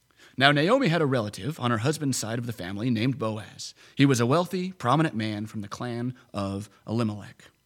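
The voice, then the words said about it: Storytelling narrator voice. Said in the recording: “my narrator voice”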